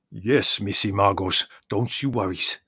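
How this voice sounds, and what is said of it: Deep, thick, wine-slurred character voice. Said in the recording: “his deep voice thickened with wine”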